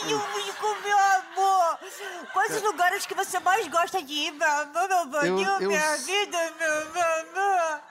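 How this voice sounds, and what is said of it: Sweet lovey-dovey boyfriend voice. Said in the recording (Portuguese): “com vozinha de namorado”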